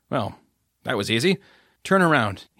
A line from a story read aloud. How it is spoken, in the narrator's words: he said, gently guiding her out of the seat by her shoulders